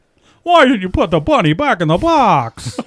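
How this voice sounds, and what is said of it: Tom Hanks impression. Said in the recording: “Tom Hanks ... more Tom Hanks-ish”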